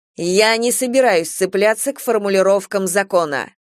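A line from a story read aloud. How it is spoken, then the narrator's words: Sharp. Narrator (Russian): резко сказала капитан Дейтерес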